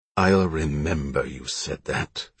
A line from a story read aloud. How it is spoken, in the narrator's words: she said coldly